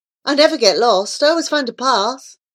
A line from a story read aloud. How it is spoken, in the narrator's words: he would just laugh boastfully and say